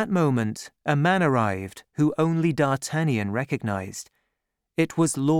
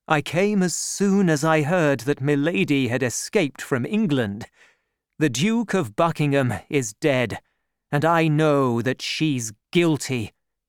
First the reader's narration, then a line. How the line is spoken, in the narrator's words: he said